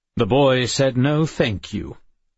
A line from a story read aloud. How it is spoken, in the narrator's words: Addison said gruffly